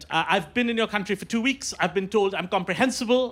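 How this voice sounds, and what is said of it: Indian English accent. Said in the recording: “I'm visiting from Mumbai, India. And I should explain this accent. ... I am from India, and this is how I speak.”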